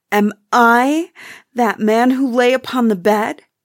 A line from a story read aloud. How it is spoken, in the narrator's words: he cried upon his knees